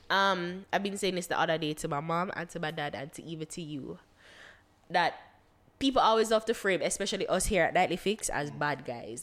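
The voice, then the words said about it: Stuffy, congested voice. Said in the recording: “I sound stuffy. I've been sick”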